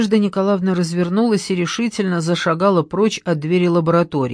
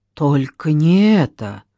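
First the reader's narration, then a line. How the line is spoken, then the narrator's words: Man moaning. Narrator (Russian): простонал мужчина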